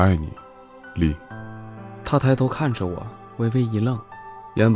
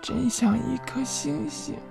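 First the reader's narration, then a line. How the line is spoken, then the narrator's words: Tender, playful murmur. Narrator (Chinese): 他语气温柔，却又透着些俏皮 喃喃道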